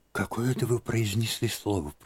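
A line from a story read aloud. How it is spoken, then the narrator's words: Whispering. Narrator (Russian): прошептала она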